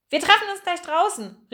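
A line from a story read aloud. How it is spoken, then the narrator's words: Called out. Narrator (German): rief er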